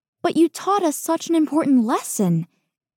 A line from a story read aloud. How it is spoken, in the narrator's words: Lien exclaims with exaggerated sincerity